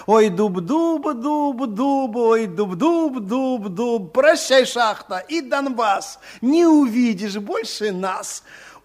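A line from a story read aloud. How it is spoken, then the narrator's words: Singing, crowd laughing chorus. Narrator (Russian): старался ложечник, а толпа с хохотом подхватывала припев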